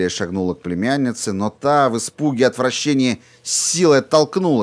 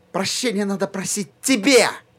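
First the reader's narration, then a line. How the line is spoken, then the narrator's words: Shouted out. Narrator (Russian): выкрикнула Сьюзан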